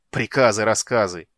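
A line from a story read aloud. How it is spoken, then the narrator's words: Contemptuous snort. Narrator (Russian): презрительно фыркнул Слит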